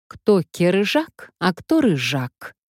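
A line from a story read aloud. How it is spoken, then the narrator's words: Angry outburst. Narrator (Russian): Вспыхнула сердито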